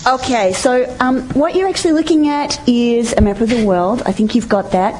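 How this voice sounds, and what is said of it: Australian accent, speaking very fast. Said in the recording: “those of you who don't speak Australian. I speak very fast.”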